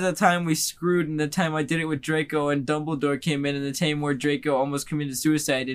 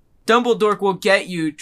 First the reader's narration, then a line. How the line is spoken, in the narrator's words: Draco shouted